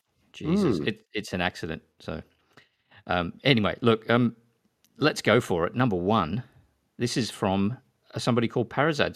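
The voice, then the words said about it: Smooth radio-presenter-like voice. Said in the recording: “you sound kind of good tonight ... You sound quite smooth ... I've got a little bit of a throat thing ... a new radio voice ... radio presenter”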